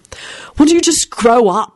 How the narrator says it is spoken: snapped Jamie

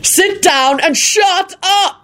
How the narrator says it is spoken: Quentin shouted at him

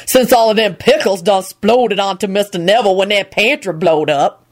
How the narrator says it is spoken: grumbled darkly

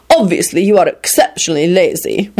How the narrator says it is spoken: Radu told him scornfully

